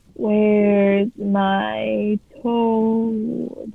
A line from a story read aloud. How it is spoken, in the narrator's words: groaned